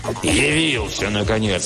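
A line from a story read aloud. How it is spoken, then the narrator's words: Angry roar. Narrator (Russian): взревел Оп сердито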